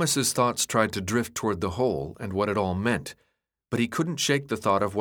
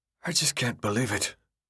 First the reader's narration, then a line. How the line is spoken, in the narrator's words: Newt said, almost whispering